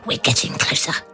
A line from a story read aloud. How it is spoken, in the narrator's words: Pitpat whispered